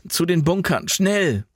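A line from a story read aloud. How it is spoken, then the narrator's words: Shout. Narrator (German): rief Jan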